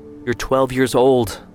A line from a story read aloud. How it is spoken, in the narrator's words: Amada said wearily